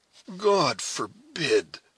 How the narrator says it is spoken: exclaimed Hayward

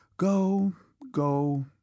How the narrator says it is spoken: said the mother, sadly and reproachfully, with a deep sigh

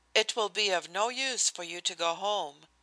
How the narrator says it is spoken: I said smoothly

